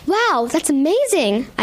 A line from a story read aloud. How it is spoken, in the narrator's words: exclaim